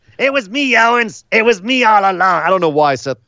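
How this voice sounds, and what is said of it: High, thin impersonated voice. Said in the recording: “say it higher with like a thinner voice ... my Seth Rollins impression ... Like a Gilbert Gottfried kind of thing.”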